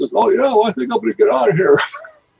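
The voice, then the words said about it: Imitates another person's voice. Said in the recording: “Best Stanley impression.”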